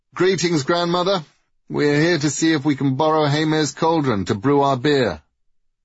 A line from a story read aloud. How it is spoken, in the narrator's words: Tyr called out